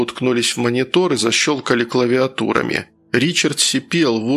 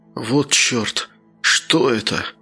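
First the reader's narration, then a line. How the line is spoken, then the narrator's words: Muttering. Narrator (Russian): бормотал он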